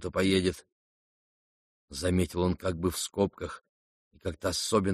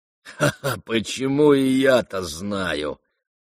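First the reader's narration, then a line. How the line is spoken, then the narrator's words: Spiteful laugh. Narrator (Russian): злобно засмеялся Рогожин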